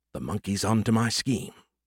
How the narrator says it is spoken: Skippy muttered to himself

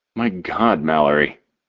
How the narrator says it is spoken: I groan

